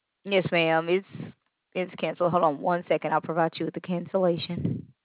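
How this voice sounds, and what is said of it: Southern US accent. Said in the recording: “You have the greatest southern accent ever.”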